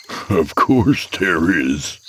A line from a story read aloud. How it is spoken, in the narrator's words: my father said with a hollow chuckle